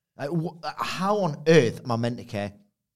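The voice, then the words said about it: Raised, loud exasperated voice. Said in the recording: “raising my voice.”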